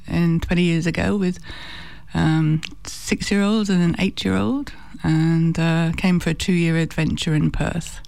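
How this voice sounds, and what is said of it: Very slight accent. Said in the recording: “that very slight accent”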